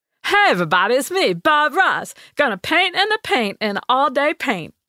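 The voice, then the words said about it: Imitates another person's voice. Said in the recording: “master celebrity impersonator ... How about the Afro painter Bob Ross?”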